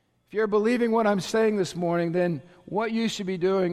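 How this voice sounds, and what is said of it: Usual voice. Nothing is said of it.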